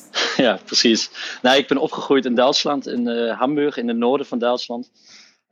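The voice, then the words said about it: Foreign accent speaking Dutch. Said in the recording (Dutch): “een, buitenlands accent.”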